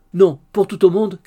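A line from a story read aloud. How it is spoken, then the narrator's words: Shouted. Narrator (French): cria la veuve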